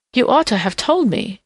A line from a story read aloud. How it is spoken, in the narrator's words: she gasped petulantly